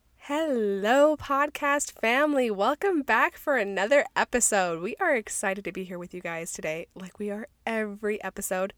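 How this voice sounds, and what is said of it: Deeper, raspy voice. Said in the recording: “my voice sounds a little different, maybe a little deeper, maybe a little bit more seductive, it's because I have a cold ... weird noises my voice makes ... raspy voices”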